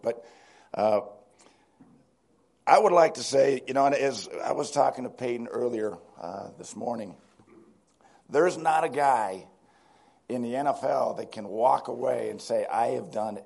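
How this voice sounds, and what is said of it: Sick, strained voice. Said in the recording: “Sorry about my voice. ... It's amazing how many times I've been sick since that Super Bowl.”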